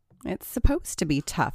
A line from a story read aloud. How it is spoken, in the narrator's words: said Rachel